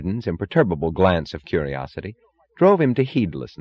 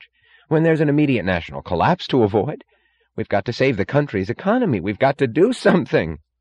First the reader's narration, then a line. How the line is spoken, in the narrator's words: cried Wesley Mooch